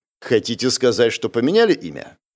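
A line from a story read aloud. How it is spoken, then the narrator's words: Skeptical snort. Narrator (Russian): Молодой человек хмыкнул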